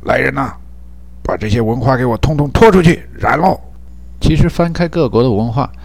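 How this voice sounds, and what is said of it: Imitating 唐国强 or 张铁林 emperor voice. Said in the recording (Chinese): “我最近老听见那唐国强或张铁林之类的声音说”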